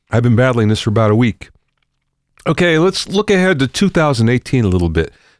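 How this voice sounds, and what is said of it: Congested voice from a cold. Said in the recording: “As you can hear, I have a bad cold, and boy, it's not letting up”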